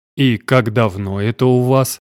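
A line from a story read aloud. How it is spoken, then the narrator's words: Gruff grumble. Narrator (Russian): буркнул мой отец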